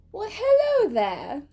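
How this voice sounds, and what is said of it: Posh, elegant British-style accent. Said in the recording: “That's called British. ... That doesn't sound British. Yeah. It's like elegant. ... An elegant accent ... you just sound like a rich person.”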